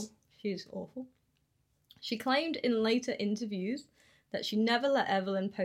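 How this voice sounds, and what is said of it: Usual voice. Nothing is said of it.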